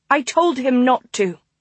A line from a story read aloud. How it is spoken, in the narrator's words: Clara snapped